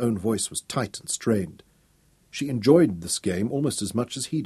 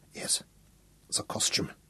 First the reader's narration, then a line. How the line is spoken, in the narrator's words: whispered